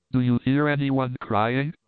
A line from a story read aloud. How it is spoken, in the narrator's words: she said